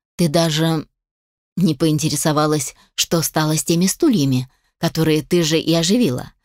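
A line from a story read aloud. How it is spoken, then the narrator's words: Calm voice. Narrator (Russian): спокойным голосом сказал Алишер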